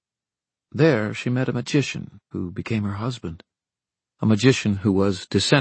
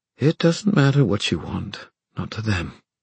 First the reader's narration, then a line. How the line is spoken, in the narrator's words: Tessa said sadly